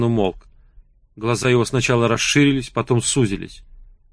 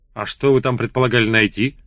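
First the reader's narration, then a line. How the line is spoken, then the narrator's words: Shouted. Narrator (Russian): закричал Сван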